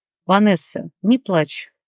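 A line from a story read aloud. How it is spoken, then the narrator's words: Calm speech. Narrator (Russian): спокойно проговорил Алекс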